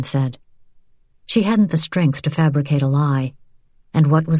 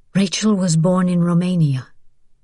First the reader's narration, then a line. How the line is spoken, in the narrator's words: Vian said tightly